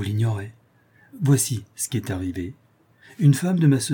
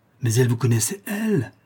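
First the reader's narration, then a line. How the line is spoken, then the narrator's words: Exclaiming. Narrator (French): s'écria M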